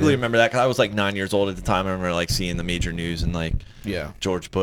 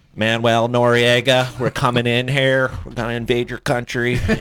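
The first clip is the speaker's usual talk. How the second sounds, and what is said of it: Imitates another person's voice. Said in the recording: “great impression. That's really good... it's like the Dana Carvey”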